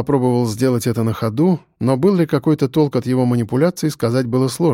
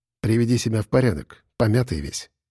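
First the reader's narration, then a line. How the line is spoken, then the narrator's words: Quiet. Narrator (Russian): негромко сказала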